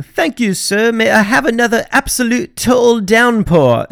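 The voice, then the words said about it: Poor put-on British accent. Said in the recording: “that is a terrible accent”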